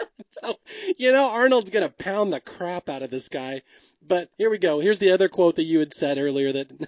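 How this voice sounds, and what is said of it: Usual voice. Nothing is said of it.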